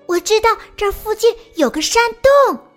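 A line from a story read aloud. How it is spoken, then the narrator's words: Hurried shout. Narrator (Chinese): 野兔急忙朝大家喊道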